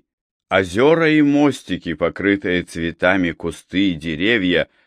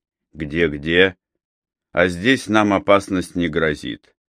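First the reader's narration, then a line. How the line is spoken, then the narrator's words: Plain. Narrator (Russian): ответил он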